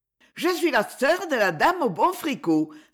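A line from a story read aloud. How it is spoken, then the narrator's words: Laughing exclamation. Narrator (French): s'écria Elfie en riant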